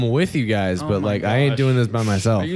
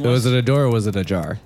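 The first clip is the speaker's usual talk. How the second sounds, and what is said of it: Deadpan delivery. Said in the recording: “delivering that deadpan”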